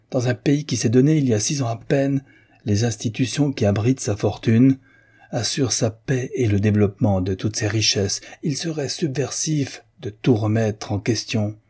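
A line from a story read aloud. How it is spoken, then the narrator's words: Exclaimed. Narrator (French): s'écria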